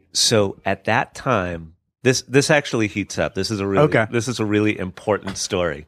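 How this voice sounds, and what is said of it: Smooth, resonant radio voice. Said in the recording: “you do have a very good radio voice”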